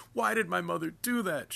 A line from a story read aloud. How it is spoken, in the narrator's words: she wails